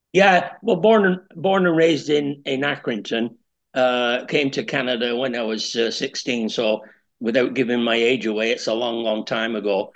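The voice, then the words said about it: Strong Canadian and East Lancashire accent. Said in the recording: “You've got a very strong Canadian accent combined with a strong East Lancashire accent.”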